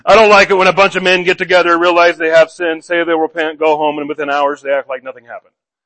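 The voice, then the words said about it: Impression of pastor Buddy Holton. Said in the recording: “my impersonation of him”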